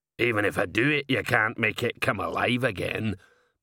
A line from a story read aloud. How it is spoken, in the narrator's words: muttered Igneous